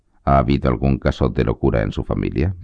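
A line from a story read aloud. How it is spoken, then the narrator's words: Routine questioning tone. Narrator (Spanish): preguntó en un tono rutinario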